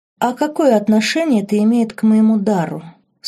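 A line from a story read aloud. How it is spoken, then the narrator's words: Calm inquiry. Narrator (Russian): спокойно поинтересовалась Лорен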